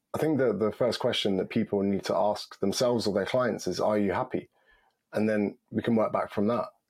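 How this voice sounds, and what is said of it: Deep voice, under the weather. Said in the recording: “I'm a bit under the weather today. It's why my voice is a bit deep.”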